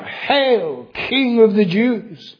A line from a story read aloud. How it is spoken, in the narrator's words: mocking, they cried out